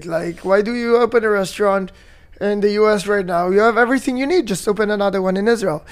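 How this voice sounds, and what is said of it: Mixed Israeli and British accent. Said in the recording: “does he have a British accent? I heard it a bit ... I have the mixture between Israeli and British accent”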